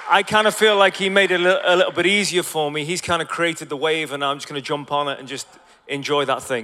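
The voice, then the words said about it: Hybrid Scouse Irish accent. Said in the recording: “I don't have the cool clay American accent ... I have this hybrid Scouse Irish, whatever it may be”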